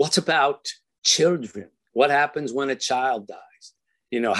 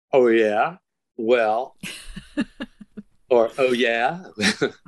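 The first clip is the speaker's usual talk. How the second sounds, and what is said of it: Weak put-on British accent. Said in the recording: “I don't do a good British accent.”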